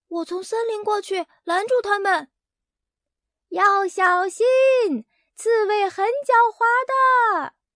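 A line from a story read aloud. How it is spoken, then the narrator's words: Shouting. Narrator (Chinese): 贝里奥喊道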